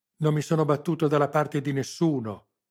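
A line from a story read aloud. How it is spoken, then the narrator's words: Broken-voiced yell. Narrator (Italian): urlò ancora lui, con voce spezzata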